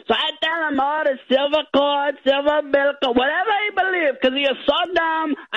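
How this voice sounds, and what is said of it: Thick, hard-to-understand accent. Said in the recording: “at times it's hard to understand you because not only do you have a thick accent”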